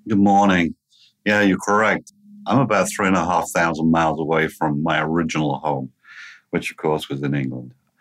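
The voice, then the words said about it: English accent. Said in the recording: “you will very quickly figure out through his accent that ... was not born and raised in Cincinnati”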